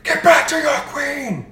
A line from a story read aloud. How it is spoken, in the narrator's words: Vaniel yells